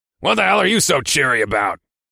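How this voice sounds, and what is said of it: Gravelly barking male character voice. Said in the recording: “barked in his usual gravelly voice”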